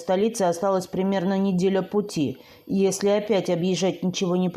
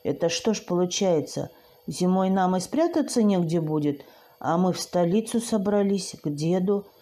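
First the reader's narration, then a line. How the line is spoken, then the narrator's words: Confused whisper. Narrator (Russian): растерянно прошептала я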